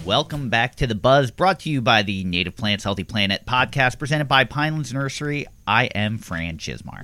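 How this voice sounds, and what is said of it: Bold, announcer-style radio voice. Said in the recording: “you said that with, like, bravado ... you really kicked on your radio voice”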